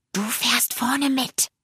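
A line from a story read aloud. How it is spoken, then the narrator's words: Whisper. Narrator (German): Er flüsterte ihm zu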